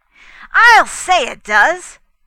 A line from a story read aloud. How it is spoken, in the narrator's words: Fay agreed loudly, without thinking